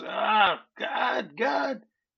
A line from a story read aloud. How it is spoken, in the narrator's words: he starts screaming, and you know he's not very happy